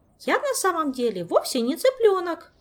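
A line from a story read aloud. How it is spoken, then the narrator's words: Squeak. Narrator (Russian): пропищал Мафей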